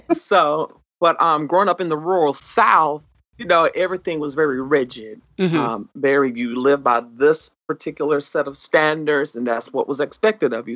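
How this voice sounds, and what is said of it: Southern country twang. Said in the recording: “the country twang, if y'all can hear it.”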